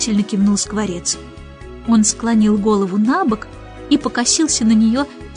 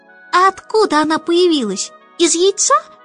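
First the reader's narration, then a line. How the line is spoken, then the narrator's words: Squeaky chick voice. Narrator (Russian): пропищал вдруг птенец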